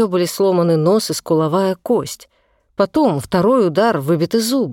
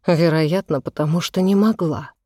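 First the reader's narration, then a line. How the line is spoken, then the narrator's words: Quiet. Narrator (Russian): тетушка произнесла это тихо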